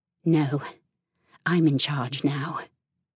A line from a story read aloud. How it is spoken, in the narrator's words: she snarled